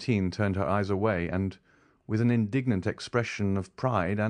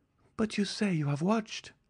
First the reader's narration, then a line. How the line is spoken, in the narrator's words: said Valentine uneasily